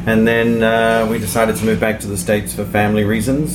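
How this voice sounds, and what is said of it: Slight New Zealand accent. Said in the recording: “I could get a little bit of an accent, you mentioned you're from New Zealand.”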